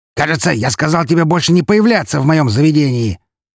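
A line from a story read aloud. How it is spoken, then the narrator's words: Prince's bark, overlapping voices. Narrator (Russian): Одновременно с ней рявкнул князь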